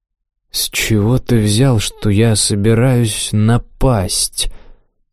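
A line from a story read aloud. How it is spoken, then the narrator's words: Slow. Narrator (Russian): медленно проговорил Ким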